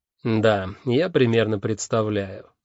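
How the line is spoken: Dry. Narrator (Russian): сухо сказала леди Сатофа

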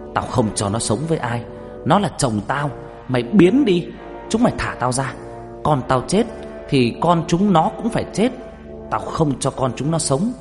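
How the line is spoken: Ghost screaming. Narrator (Vietnamese): Cái âm hồn đó hét lên

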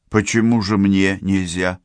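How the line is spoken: Forced calm question. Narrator (Russian): спросил Борис по возможности спокойно

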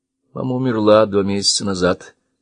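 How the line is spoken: Dry reply. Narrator (Russian): сухо ответил Штерингас

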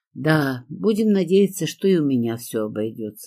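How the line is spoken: Sighing with a smile. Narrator (Russian): вздохнула я, улыбнувшись

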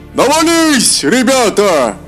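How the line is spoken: Shout from crowd. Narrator (Russian): закричал кто-то из толпы

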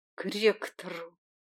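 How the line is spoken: Quiet, then barking. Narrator (Russian): обронила она тихо, затем как рявкнула

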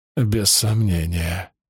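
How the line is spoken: Sad. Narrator (Russian): грустно сказал Андерсон

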